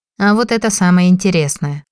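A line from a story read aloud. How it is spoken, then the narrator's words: Amused snort. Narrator (Russian): хмыкнул Димарий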